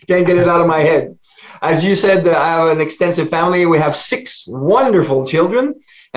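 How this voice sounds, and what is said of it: French Canadian accent. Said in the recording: “French ... Canadian ... I can never get rid of my accent, even though I went to English university.”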